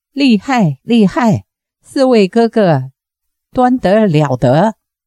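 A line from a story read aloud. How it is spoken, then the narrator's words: Hearty laughter. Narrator (Chinese): 陶石仙哈哈大笑，说道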